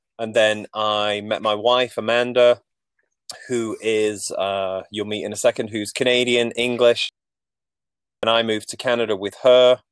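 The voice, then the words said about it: Manchester English accent. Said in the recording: “I'm not from Nova Scotia, as you can probably tell from my accent... I grew up in uh, Manchester, England”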